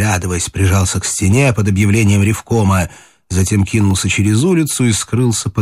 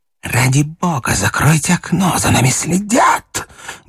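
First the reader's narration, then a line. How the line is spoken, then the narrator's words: Loud whisper. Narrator (Russian): громко прошептал Говядин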